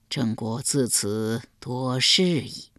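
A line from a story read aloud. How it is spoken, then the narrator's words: Sigh. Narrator (Chinese): 郑庄公叹道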